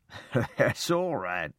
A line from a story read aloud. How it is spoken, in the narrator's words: Laughing, he said